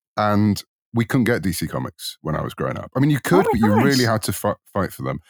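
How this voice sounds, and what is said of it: British accent. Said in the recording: “you might tell from my accent, I'm in the UK”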